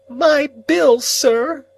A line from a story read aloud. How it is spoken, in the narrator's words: the crying woman pleaded